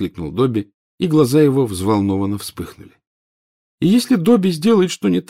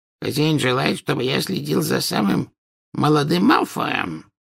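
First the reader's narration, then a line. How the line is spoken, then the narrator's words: Hoarse rasp. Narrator (Russian): прохрипел Кикимер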